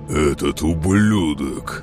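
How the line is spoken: Angry hiss through teeth. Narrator (Russian): прошипел сквозь зубы Фараф, медленно выходя из себя

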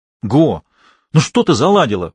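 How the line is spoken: Exclamation. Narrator (Russian): воскликнул я

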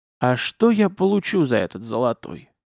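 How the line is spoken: Gloomy question. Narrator (Russian): поинтересовался мрачным голосом

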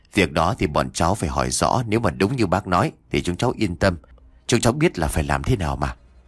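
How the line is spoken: Soft, smiling. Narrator (Vietnamese): Anh công an mỉm cười ... khẽ nói

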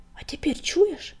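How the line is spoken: Hissed. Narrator (Russian): прошипел он

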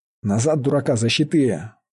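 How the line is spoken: Growled. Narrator (Russian): прорычал Мечислав

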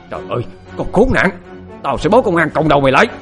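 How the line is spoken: Old woman screaming. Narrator (Vietnamese): Bà nó lại hét lên

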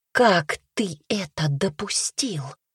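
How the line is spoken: Menacing whisper. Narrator (Russian): грозно прошептала она

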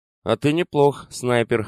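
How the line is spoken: Amused snort. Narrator (Russian): хмыкнул Катер

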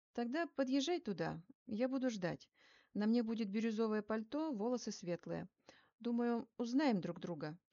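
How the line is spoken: Playful friendly tone. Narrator (Russian): шутливо дружелюбным тоном произнесла я

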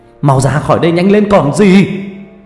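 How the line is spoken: Yelling. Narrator (Vietnamese): Ông Ninh quay lại gào lên

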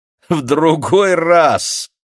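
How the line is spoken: Displeased guffaw. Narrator (Russian): Недовольно захохотала Гася

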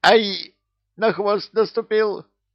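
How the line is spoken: Squealing. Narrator (Russian): взвизгнул кто-то

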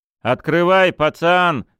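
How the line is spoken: Shouting corkscrew. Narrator (Russian): крикнул штопор

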